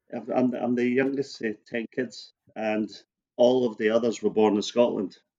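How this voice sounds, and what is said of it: Scottish accent. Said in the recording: “as the accent would not give you a clue to, I was born in Hampshire”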